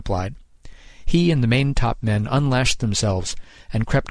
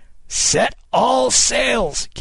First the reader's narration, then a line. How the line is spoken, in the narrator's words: Kidd cried